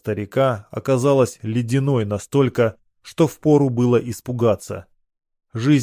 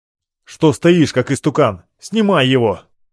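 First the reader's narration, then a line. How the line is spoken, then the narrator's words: Barked. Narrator (Russian): рявкнул я на обмершего белоратника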